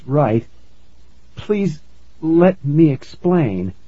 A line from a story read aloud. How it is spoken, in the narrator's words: I said in a shaky voice